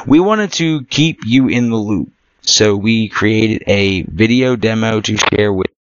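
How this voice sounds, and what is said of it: Worn-out strained voice. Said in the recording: “my voice is shot”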